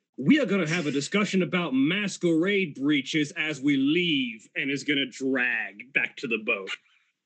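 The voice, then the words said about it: Character voice with an accent. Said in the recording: “sorry, I lost my accent.”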